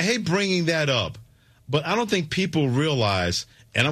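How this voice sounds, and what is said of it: Usual voice. Nothing is said of it.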